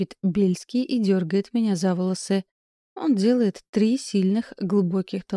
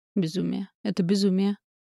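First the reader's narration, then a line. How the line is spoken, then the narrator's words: Murmur against lips. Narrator (Russian): бормочет он мне в губы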